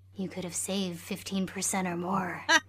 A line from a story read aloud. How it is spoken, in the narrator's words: he whispered